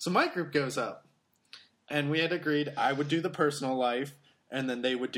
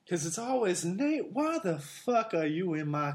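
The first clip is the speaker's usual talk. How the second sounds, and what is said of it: Put-on Southern Belle accent. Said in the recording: “She was a Southern Belle ... that's how I do my Southern Belle accent. Is I always do her.”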